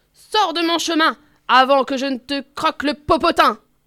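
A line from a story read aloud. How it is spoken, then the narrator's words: Elephant shouting. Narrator (French): crie l'éléphant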